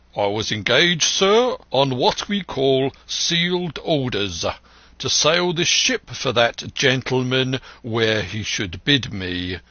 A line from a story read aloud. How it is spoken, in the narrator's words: said the captain